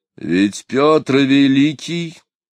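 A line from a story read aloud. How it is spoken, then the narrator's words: Stern. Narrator (Russian): строго сказал Орлов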